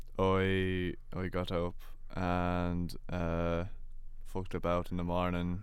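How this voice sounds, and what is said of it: Put-on Irish accent. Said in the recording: “you had it at the start. Yeah. The wee bit at the start. ... When you said you fucked about in the morning and that. ... my Irish accent is quality”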